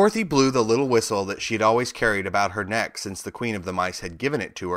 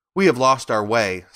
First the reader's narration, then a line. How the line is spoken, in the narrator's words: said Dorothy